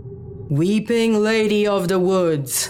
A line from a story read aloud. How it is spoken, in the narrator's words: Charles finally bellowed